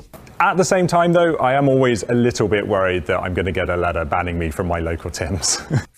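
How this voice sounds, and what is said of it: British accent. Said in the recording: “I noticed ... accent. ... he's actually from the UK.”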